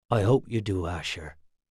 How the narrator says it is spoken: Matt said softly

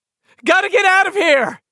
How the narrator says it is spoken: he screamed at Al Zitner

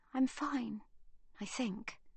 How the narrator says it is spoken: whispers Livy

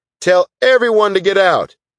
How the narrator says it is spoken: The man in uniform shouted back

